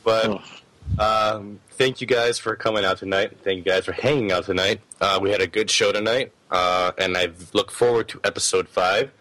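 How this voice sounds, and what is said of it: Hoarse, losing voice. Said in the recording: “be in better health and not sound, you know, might won't be losing my voice.”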